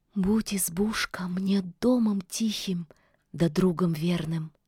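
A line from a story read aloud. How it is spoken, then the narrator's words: Quiet. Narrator (Russian): молвила тихо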